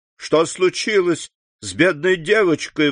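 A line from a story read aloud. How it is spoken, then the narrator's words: Exclaiming. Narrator (Russian): воскликнула она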